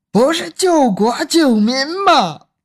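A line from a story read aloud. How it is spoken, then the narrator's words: Anguished crying out. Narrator (Chinese): 冲着苍天哭喊着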